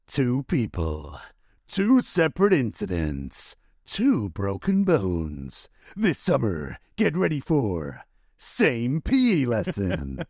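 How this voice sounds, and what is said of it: Dramatic movie trailer voice. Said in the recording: “in your movie voice”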